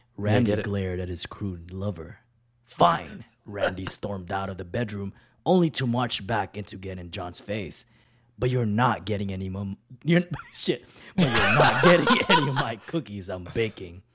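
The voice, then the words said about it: Deep put-on reading voice. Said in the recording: “I'm going to read this in a deep voice.”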